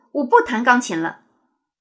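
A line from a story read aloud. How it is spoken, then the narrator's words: Angry outburst. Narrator (Chinese): 王子 一股怒火 脱口而出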